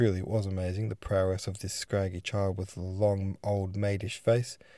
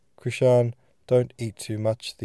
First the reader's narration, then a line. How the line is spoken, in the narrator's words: the old man suddenly called out in dialect